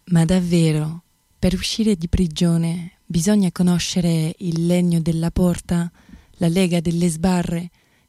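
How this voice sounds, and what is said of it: French accent speaking Italian. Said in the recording (Italian): “voce meravigliosa, ma poi questo accento francese, stupendo”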